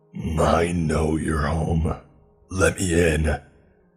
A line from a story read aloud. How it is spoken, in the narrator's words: said now in a demonic voice